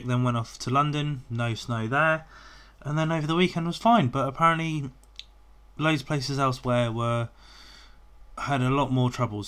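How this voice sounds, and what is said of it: Voice still rough from a cold. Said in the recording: “I've come out with a bit of a cold uh, which I've just sort of recovering from. You might be able to tell my voice is still a little bit worse for wear”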